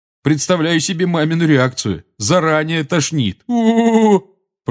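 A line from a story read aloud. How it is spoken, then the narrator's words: Groaning. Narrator (Russian): простонал Джордж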